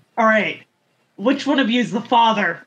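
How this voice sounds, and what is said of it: Completely deadpan delivery. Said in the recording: “in a completely deadpan voice”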